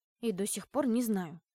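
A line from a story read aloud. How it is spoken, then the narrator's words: Grumbled. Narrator (Russian): буркнул я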